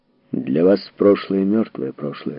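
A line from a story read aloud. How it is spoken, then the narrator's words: Plain. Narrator (Russian): сказал Эрмин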